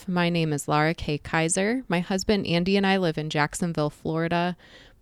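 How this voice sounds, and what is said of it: Southeast Michigan accent. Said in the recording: “I've lived most of my life in Southeast Michigan, which I've been told is rather obvious from my accent.”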